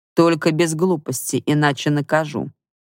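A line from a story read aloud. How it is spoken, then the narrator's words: Threatening. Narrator (Russian): произносит угрожающим тоном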